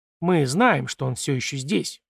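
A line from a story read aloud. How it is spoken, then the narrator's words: Calm. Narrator (Russian): спокойно продолжил гость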